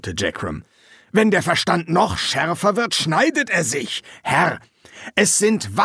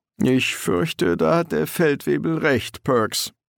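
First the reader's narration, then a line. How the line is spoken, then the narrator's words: Sad. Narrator (German): sagte Bluse traurig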